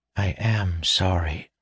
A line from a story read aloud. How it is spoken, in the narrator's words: she whispered as he passed, her lips barely moving